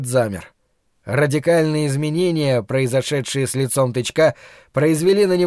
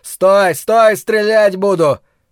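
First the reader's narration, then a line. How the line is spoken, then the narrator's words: Shouting. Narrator (Russian): полицейский заорал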